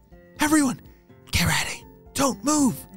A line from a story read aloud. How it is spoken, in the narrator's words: whispered